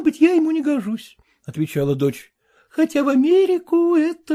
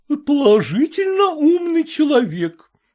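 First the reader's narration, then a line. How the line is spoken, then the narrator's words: Mother exclaiming. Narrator (Russian): воскликнула мать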